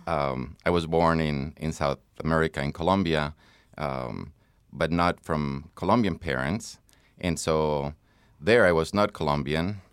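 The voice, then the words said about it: Non-American foreign accent. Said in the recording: “you can tell by my accent that I am not from Chicago. I'm not from the U.S. either.”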